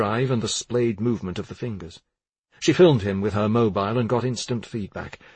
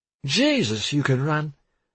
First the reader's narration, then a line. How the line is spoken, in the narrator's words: Salander said, her speech slurred